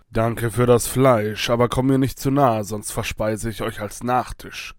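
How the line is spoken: Wolf growling. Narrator (German): knurrte der Wolf

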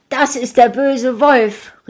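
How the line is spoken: Called out. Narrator (German): rief sie

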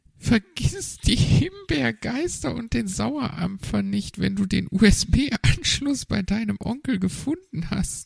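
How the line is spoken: Giggling. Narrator (German): kicherte Frau Elster

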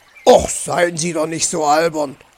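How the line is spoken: Growled. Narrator (German): knurrte Herr Fuchs

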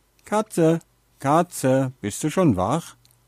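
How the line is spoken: Called out. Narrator (German): rief er

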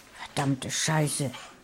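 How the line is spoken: Hissing. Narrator (German): zischte

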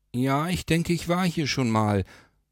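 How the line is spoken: Called back. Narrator (German): rief er zurück

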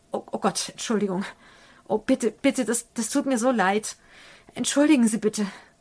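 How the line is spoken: Stammering apology. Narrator (German): schnappt der Herr, besinnt sich jedoch und stammelt

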